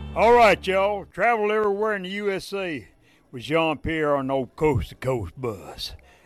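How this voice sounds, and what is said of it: Deep Tennessee Southern accent. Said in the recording (French): “il a vraiment un accent qui vient du fin fond du Tennessee”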